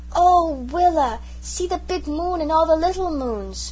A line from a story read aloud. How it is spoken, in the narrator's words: when he saw the stars he exclaimed